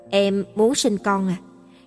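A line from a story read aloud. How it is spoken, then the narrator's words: Low deep voice. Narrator (Vietnamese): nói bằng giọng trầm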